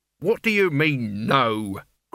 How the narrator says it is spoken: growled Albert

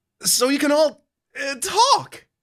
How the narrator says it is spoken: You stammer

